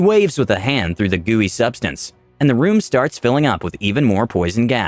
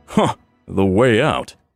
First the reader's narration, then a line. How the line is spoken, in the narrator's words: The necromancer chuckles warmly